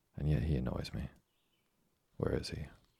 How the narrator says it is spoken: added he, with a coldly menacing expression

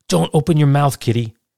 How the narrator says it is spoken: He blurted out

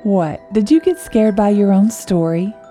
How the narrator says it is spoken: Sarah chuckled

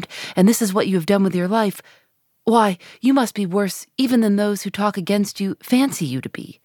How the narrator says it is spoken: he exclaimed

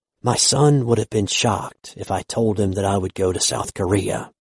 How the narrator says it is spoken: he whispered

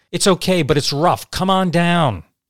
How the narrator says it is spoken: He then yelled back to Joe

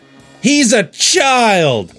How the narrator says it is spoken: Lightning shouted

